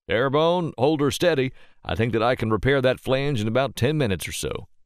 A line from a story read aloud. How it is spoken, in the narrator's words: hollered from under the raised visor of his helmet and above the sound of the wind now picking up speed over the gulf